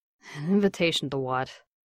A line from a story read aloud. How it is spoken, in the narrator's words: he mumbled